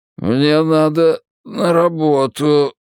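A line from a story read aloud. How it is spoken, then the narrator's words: Mumble. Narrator (Russian): промямлил он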